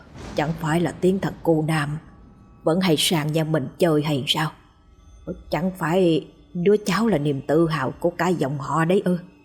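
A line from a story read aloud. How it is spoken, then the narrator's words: Muttering. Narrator (Vietnamese): Ông Cẩm lẩm bẩm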